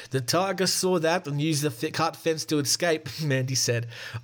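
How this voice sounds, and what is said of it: Put-on South African accent. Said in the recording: “I'm really good at the South African accent”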